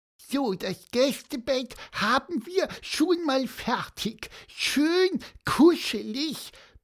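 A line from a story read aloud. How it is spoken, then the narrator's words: Squeaky voice. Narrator (German): piepste Pieper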